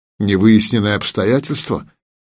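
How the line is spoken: Muttering. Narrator (Russian): пробормотал Игнат

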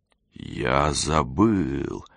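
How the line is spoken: Slow drawl. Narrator (Russian): медленно протянул он

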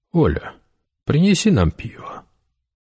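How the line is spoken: Quiet. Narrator (Russian): негромко сказал

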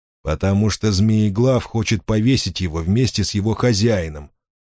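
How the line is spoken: Plain. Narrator (Russian): ответил огненный лис

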